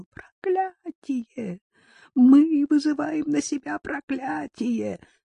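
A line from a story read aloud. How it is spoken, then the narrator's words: Shriek. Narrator (Russian): Газан завизжал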